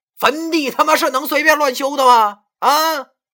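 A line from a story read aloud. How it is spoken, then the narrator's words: Angry shout. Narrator (Chinese): 文叔好像火了，他没有对着郑阿姨，而是对着那三个人喊道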